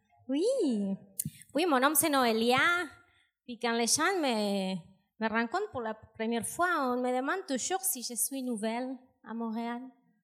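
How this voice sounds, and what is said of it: Strong foreign accent in French. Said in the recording (French): “c'est à cause de mon accent ... J'entends un petit accent ... Mon accent est gigantesque”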